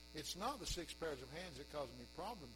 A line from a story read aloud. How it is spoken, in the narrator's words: said the Lord